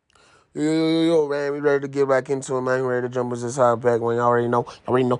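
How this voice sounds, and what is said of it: Talking very fast. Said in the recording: “I'm talking too fast.”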